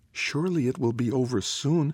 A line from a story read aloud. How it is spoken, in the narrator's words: one twin whispered into the watchful silence